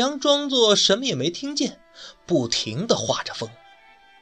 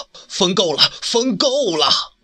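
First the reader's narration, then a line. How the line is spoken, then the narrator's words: Frightened loud shout. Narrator (Chinese): 这皇上心里可害怕了，大声喊道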